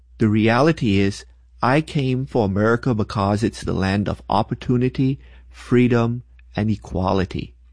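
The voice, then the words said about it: Non-American foreign accent. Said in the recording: “I am not originally from America. Most of y'all probably figured that out from my accent.”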